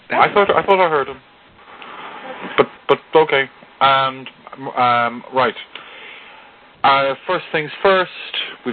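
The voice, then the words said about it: Thick Irish accent. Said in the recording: “unique, thick Irish accent”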